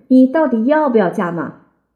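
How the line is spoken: Angry loud question. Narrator (Chinese): 我火了，大声问

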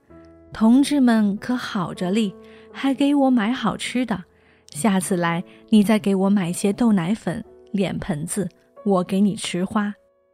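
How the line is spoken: Old man laughing heartily. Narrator (Chinese): 老人哈哈大笑

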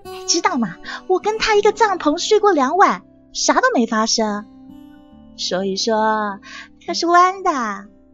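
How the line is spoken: Sly grinning man. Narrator (Chinese): 曼德勒一脸坏笑，他说

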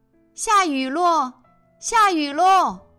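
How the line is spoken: Joyful shout. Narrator (Chinese): 大喊着

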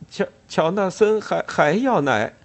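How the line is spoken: Smiling. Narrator (Chinese): 他冲大家笑笑，然后对卡斯伯特说

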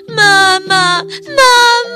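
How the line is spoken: Crying out. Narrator (Chinese): 花花和嗡嗡也跟着哭叫

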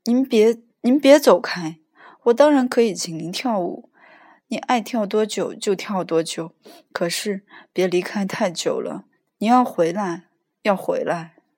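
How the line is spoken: Loud pleading. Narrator (Chinese): 我大声恳求道

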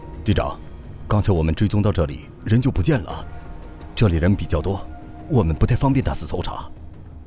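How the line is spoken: Bearded man whispering. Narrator (Chinese): 旁边一个大胡子大叔用手掩口，轻声的在女子耳旁说道

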